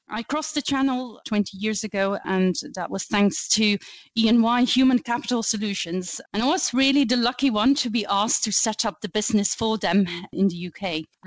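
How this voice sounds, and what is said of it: Flemish Belgian accent. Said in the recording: “you will quickly pick up on my accent. I speak Flemish. I am Belgian”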